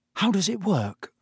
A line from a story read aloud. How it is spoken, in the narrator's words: said Harry nervously